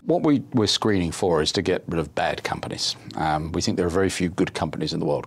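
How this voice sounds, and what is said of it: British accent. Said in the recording (Dutch): “met een fijn Brits accent”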